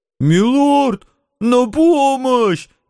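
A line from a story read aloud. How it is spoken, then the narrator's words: Shrill cowardly squeal. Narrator (Russian): неожиданно тонким голосом заверещал трусливый рыцарь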